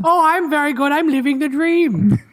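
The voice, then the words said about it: Troll character voice. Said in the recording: “Hob the Troll is here ... that voice”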